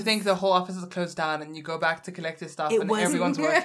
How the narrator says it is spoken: I laughed

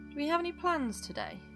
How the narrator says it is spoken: He asked Lynn lazily

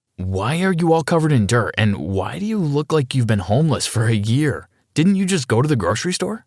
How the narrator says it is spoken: I asked

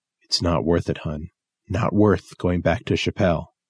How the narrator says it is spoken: my father whispered

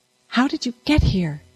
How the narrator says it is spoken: Constance whispered

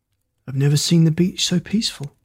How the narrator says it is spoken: Tom mumbled

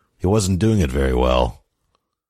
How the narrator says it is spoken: grumbled

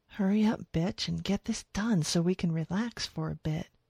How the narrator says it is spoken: she whispered

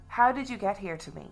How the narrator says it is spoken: he replied

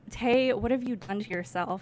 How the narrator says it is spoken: His tone was accusatory, though rhetorical

